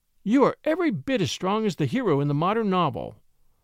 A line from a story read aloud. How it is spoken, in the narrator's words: she said happily